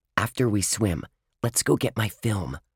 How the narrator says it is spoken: Ruth Rose said quietly

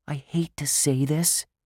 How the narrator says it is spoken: Josh whispered

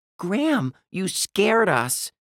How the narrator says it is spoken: Ruth Rose cried

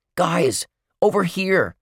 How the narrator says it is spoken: he shouted

